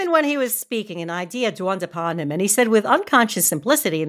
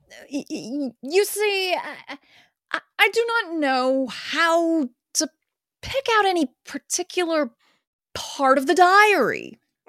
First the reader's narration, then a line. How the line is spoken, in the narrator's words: he stammered out